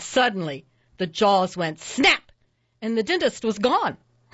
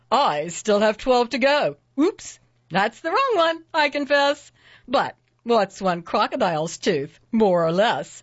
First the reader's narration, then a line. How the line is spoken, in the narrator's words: the dentist just laughed with a ho, ho, ho, and he said